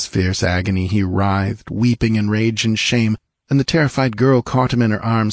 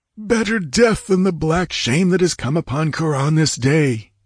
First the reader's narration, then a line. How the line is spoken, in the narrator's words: he groaned